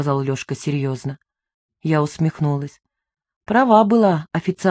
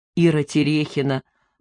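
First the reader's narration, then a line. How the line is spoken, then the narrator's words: Repeated, hysterical laughter. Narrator (Russian): повторил Лешка и истерически расхохотался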